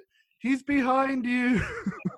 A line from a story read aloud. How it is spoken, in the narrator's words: my grandmother, she just shouted